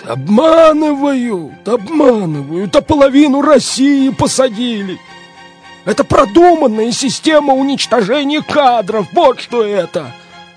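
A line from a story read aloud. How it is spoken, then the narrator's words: Wailing voice. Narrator (Russian): вопил какой-то голос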